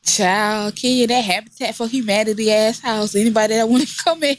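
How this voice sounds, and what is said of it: Usual voice. Nothing is said of it.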